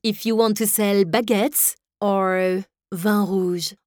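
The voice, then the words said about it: Exaggerated French accent. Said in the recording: “I can sound very French”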